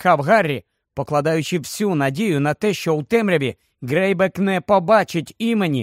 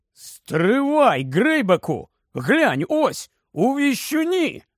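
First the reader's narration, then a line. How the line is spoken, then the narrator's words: Exclaimed. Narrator (Ukrainian): Скабіор це вигукнув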